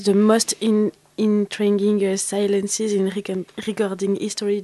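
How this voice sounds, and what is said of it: Heavy French accent in English. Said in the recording (French): “mon accent horrible en anglais”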